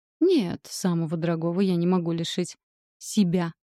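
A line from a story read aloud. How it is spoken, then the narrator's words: Growled. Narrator (Russian): Рыкнула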